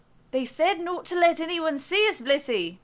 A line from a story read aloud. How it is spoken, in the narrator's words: the sprite's companion reminds her in a thick Scottish accent